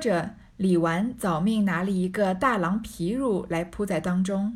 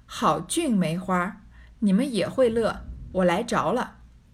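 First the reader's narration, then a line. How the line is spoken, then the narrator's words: Laughing. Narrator (Chinese): 贾母先笑道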